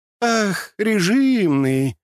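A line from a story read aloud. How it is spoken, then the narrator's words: Drawling. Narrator (Russian): протянула она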